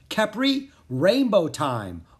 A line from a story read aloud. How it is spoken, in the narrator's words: Anna cried